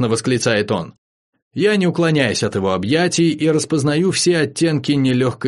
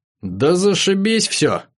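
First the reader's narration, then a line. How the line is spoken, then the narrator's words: Dejected, sorrowful. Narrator (Russian): уныло сообщает Кицарик и горестно объясняет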